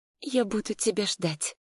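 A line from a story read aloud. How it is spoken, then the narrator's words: Barely audible whisper. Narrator (Russian): шепнула чуть слышно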